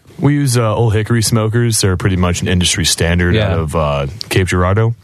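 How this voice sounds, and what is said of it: Radio announcer-style voice. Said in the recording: “That's right, his voice. You hear that radio voice? ... Do you hear that radio voice?”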